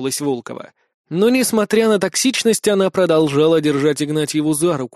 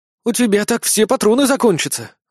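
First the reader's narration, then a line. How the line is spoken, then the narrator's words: Breathless exhale. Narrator (Russian): выдохнула Иришка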